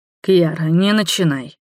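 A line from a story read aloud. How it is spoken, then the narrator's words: Heavy sigh. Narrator (Russian): вампир тяжело вздохнул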